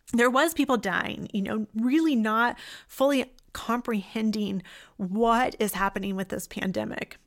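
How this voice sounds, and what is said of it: Emotional voice, cracking. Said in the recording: “my voice cracking a little bit because it's emotional for me”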